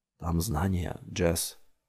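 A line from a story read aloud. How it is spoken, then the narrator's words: Quiet speech. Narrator (Russian): тихо сказал Джамил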